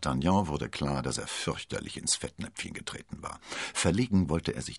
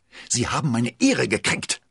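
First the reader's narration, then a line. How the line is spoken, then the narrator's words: Hissed. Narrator (German): zischte er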